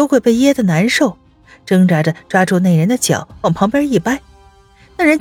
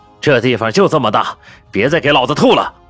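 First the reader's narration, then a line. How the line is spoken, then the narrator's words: Angry cursing. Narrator (Chinese): 头上缠着绷带的人怒骂道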